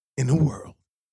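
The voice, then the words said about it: Dramatic movie trailer announcer voice. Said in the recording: “That's a movie trailer”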